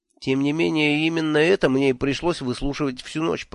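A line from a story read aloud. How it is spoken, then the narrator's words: Grumbling. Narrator (Russian): проворчал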